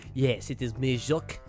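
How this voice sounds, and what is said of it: Put-on French accent. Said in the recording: “I used to have a decent French accent. ... That was pretty good.”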